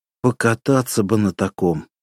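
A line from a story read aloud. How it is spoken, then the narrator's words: Sighing. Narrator (Russian): вздохнул Романчук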